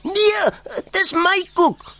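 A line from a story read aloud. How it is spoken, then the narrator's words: Loud protest. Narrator (Afrikaans): raas Rian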